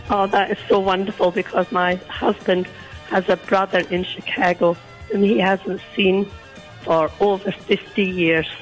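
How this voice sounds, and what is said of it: Croaky voice. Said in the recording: “You're a little croaky this morning ... I have a bit of a sore throat.”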